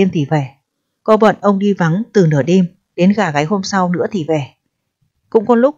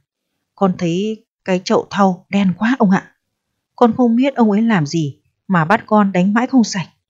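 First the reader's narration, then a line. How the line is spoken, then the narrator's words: Servant's alarmed whisper. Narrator (Vietnamese): thằng đầy tớ thì thào với ông rằng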